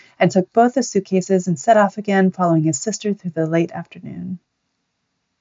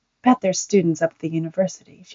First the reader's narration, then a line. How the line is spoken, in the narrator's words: she murmured